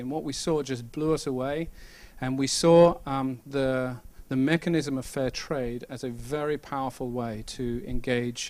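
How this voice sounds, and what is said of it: British accent. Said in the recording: “you can tell from my accent I'm not from around here ... I am kind of eventually from the UK”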